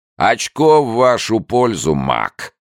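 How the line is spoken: Loud deep voice. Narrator (Russian): громко басил Уокер

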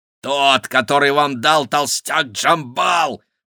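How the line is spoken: Growling. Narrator (Russian): прорычал Гавинт

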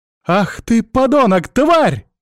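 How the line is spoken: Shouting out. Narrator (Russian): выкрикнула Настя

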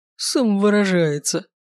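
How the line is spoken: Snorting. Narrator (Russian): фыркнул он

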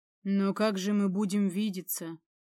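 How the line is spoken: Gloomy question. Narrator (Russian): уныло спросил Леандр

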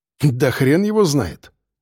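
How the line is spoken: Dismissive snort. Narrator (Russian): хмыкнул Женя

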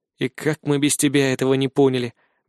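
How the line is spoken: Muttered. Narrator (Russian): бормочу я

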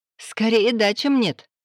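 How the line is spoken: Laughing. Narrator (Russian): засмеялась она

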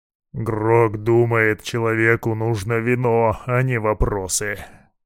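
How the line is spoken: Deep bass from dark corner. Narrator (Russian): Пробасил орк из темного угла

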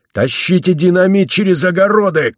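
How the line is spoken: Shout. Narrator (Russian): крикнул Лбов

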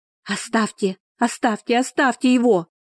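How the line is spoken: Female scream. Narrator (Russian): закричала она

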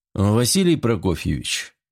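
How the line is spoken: Quiet tired voice. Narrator (Russian): обратился к нему Серов тихим и усталым голосом

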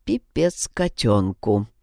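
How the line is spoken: Muttered. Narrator (Russian): пробормотал Павел

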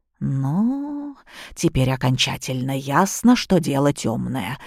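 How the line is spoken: Muttered. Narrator (Russian): пробормотала Софья

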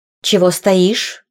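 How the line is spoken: Stepmother asking rudely. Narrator (Russian): грубо спросила мачеха

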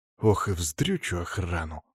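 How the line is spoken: Grumbling. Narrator (Russian): ворчал я

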